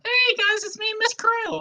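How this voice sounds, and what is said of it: Put-on character voice. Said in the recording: “impersonating Mrs. Krill”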